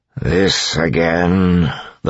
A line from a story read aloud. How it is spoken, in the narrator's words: the Lord Ruler said wearily